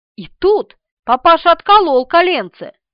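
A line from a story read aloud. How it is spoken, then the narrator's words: Exclamation. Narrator (Russian): воскликнул Николай Леонидович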